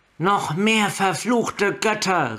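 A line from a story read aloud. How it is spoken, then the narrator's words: Exclaimed. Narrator (German): rief sie aus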